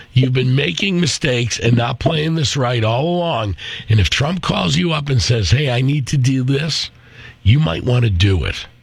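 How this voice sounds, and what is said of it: Hoarse, worn-out voice. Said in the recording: “My voice is shot from being sick for a week.”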